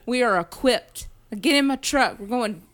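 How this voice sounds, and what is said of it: Put-on American Southern accent. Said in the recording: “we have a southern accent”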